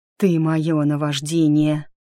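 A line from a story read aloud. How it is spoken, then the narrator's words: Hoarse voice. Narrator (Russian): хрипло произнес Харт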